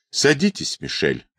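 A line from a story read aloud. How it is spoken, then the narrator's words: Calm. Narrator (Russian): произнесла спокойно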